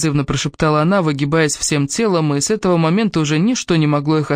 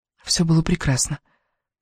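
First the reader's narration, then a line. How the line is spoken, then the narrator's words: Hoarse whisper. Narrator (Russian): хрипло прошептала Элис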